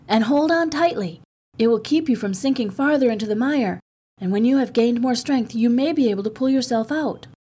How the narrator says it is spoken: he called out

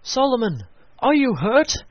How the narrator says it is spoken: they cried

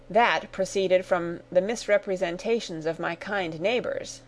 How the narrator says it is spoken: said Mr

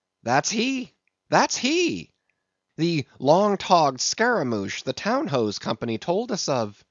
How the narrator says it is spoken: Stubb had exclaimed

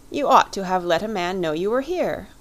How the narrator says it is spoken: he cried

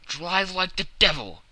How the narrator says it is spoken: he shouted

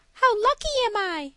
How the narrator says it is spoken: cried she

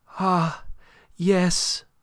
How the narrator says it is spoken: cried Aline

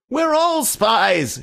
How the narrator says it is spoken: shouted Dr

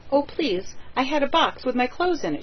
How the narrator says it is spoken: she cried

